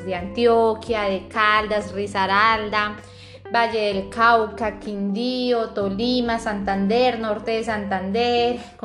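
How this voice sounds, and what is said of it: Strong, sing-song Santander Colombian accent. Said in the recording (Spanish): “acá represento a los santanderianos? Somos personas que nuestro acento comenzando es como más fuerte, más cantado, hablamos rápido ... nuestro acento es así, es muy marcado, muy fuerte”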